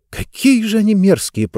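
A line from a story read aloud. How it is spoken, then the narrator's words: Whisper. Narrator (Russian): прошептала Диба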